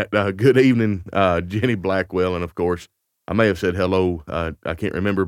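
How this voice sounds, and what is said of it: Lower, slightly sore-throated voice. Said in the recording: “feel like it's about an octave lower... a little bit of a bug... I just have a little bit of a sore throat... my voice is a little bit lower”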